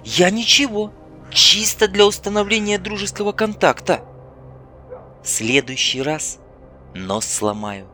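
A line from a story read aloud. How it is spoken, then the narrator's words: Calm promise. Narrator (Russian): спокойно пообещала Ольга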